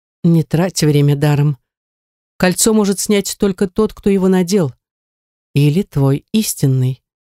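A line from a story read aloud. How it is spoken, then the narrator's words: Calm reply. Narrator (Russian): спокойно ответила она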